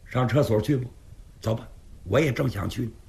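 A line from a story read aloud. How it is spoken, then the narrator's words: Deliberately raised voice. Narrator (Chinese): 刘世杰故意提高声音说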